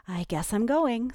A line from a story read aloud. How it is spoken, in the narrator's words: sighed Ellie